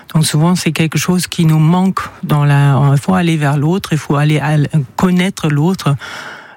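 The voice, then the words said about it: Slight German accent in French. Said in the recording (French): “vous êtes allemande, on l'entend, vous avez un petit accent ... Un tout petit peu”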